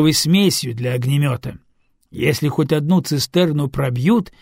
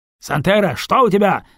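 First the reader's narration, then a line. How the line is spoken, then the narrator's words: Yelling over the radio. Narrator (Russian): завопило радио голосом Лепки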